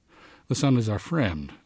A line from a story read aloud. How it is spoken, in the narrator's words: said Fell, nervously